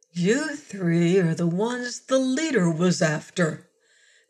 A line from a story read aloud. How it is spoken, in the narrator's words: Thatcher said softly